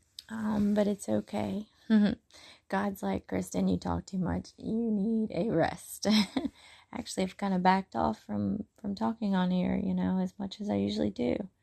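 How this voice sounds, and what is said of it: Strained, failing voice. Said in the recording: “my voice is kind of going out on me”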